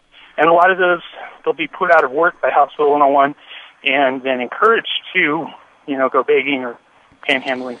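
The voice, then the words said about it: Out of breath, breathless speech. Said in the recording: “Sorry, I'm a little out of breath. I'm working.”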